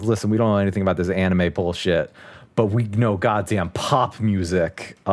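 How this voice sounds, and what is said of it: Put-on Brooklyn accent. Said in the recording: “Imagine I'm doing an actual Brooklyn accent.”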